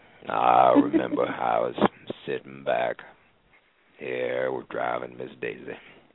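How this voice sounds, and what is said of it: Morgan Freeman impression. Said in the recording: “I'm working on my Morgan Freeman impression”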